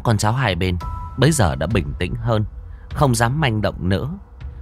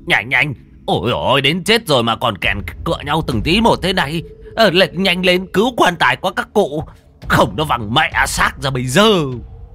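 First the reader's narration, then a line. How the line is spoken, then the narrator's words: Roaring. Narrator (Vietnamese): Lão Thống gào lên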